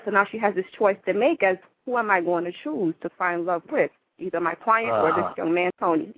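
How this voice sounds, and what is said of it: Jamaican accent. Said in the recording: “I noticed you have an accent. Where are you originally from ... Jamaica.”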